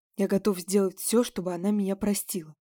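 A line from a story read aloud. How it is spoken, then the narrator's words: Quiet but clear. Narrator (Russian): сказал он тихо, но четко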